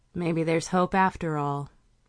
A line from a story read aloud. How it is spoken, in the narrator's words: she muttered